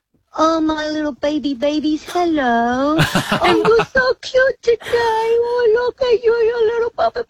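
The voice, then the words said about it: Baby voice. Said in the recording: “talk to us in a baby voice.”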